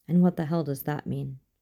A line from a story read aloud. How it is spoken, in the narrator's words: said in an even voice